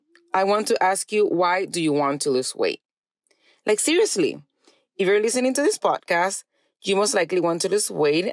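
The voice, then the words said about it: Speaks with a noticeable accent. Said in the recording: “you love my accent”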